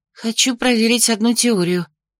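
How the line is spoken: Breathed out. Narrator (Russian): выдохнула я

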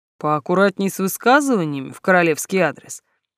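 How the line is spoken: Mock-stern, amused. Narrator (Russian): грозно нахмурил брови Бернард, но глаза его смеялись

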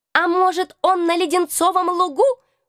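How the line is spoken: Mocking squeak. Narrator (Russian): вдруг с издевкой в голосе пропищал какой-то крысеныш

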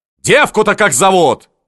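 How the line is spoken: Shouting. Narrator (Russian): кричал Ушаков

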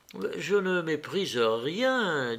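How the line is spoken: Said gently. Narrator (French): dit Constantin doucement

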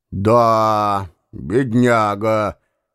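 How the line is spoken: Sighing again. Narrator (Russian): вздохнул еще раз становой

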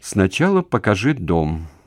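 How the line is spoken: Gloomy. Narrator (Russian): произнесла она мрачно

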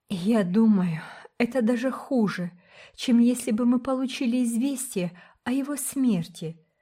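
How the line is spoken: Moaned through nearly closed lips. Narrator (Russian): простонала Рила, почти не разжимая побелевших губ

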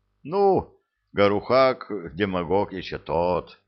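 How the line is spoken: Short laugh. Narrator (Russian): хохотнул Скоморох

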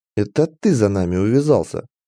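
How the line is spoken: Sarcastic female elf. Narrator (Russian): язвительно ответила эльфийка

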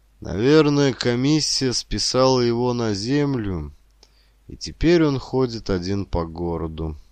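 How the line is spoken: Tired. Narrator (Russian): устало сказала Вика

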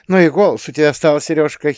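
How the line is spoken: Giggling. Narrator (Russian): хихикнула

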